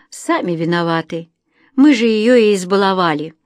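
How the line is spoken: Father sighing. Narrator (Russian): вздохнул отец

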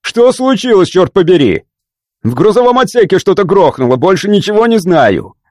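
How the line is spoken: Yelling pilot. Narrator (Russian): орал пилот

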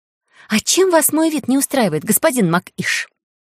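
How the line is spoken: Stung hiss. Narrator (Russian): прошипел я уязвленно

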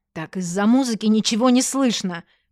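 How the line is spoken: Indignant excuse. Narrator (Russian): возмущенно оправдывалась

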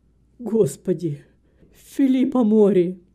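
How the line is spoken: Exclamation. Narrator (Russian): мистер Грэм воскликнул

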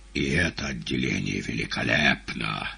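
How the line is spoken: Solemn. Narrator (Russian): торжественно признал Коровьев

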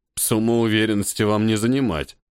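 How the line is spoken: Skeptical scoff. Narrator (Russian): скептически хмыкнул

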